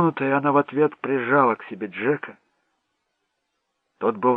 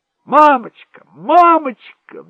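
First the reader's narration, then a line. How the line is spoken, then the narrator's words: Excited distant shouting. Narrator (Russian): взволнованно кричал Дэнни с крыльца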